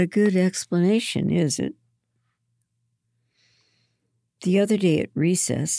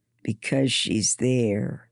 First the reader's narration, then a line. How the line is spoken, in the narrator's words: Andrew just growled